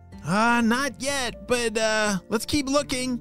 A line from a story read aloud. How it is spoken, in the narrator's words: shouted Anna back